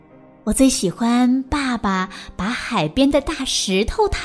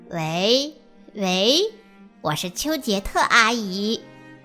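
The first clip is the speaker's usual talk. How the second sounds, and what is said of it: Pinched-nose fake female voice. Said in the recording (Chinese): “他会捏着鼻子假装女生的声音说”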